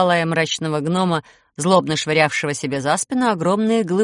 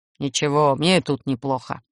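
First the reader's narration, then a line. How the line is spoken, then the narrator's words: Gruff growl. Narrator (Russian): рыкнул гном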